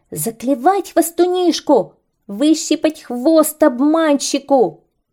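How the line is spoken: Birds shouting. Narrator (Russian): закричали птицы

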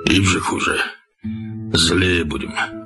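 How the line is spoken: Hoarse, strange voice after crying. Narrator (Russian): Когда отплакались, отец сказал хриплым незнакомым голосом

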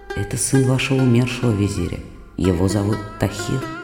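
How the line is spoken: Plain. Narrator (Russian): ответил новый визирь

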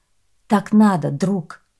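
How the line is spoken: Calm reply. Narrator (Russian): Мигель спокойно ответил

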